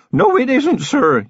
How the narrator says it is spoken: yelled Feeney

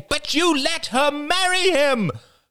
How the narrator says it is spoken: cried Jada

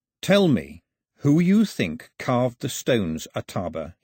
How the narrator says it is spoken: he said, keeping his voice calm

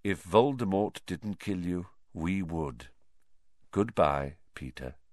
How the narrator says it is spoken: said Lupin quietly

